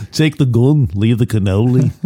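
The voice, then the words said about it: Imitates another person's voice. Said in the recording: “That's my Alec Guinness impression.”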